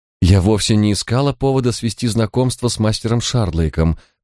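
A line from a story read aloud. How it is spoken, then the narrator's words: Fairly calm voice. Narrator (Russian): произнесла она довольно спокойным голосом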